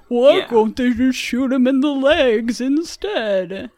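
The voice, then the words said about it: Imitates another person's voice. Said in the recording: “my Joe Biden impression”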